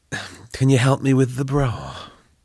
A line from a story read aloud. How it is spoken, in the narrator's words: Belinda groaned, ugh